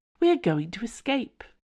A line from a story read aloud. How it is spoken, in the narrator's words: Milord repeated calmly